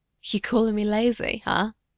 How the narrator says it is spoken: Bucky whispers

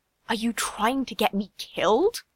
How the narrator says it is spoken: She hissed

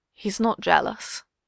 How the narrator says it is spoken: Steve murmurs

